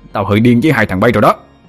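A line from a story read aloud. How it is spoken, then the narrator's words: Angry roar. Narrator (Vietnamese): Thằng Vinh liền gầm lên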